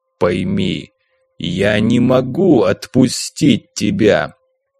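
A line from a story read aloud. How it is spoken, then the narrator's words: Calm growl. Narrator (Russian): спокойно прорычал прыгун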